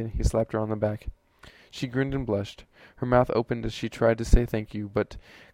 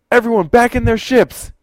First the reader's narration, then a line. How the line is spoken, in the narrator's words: yelled at the top of his lungs